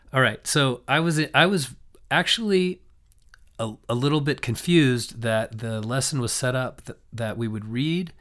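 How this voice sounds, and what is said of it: Hoarse, raspy voice. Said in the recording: “I've lost my voice ... a more raspy voice ... my voice is very raspy”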